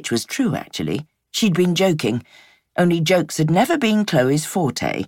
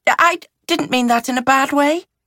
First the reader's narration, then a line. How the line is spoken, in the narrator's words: she found herself blurting